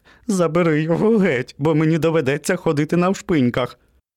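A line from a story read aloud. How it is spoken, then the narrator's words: Merry laugh. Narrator (Ukrainian): Котик весело засміявся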